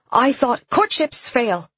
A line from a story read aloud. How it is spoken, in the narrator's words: Emily said sharply